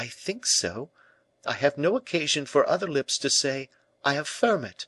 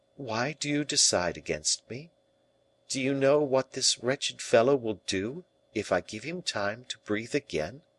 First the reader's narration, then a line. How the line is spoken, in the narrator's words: said gently